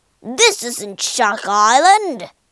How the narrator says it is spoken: growled Spike

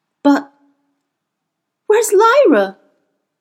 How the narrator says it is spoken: he cried out aloud

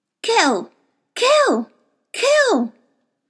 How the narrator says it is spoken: Someone was shouting

